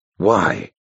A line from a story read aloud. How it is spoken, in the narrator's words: the abbot whispered, almost in awe